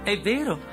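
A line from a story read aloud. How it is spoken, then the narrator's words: Plain. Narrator (Italian): disse Dorothy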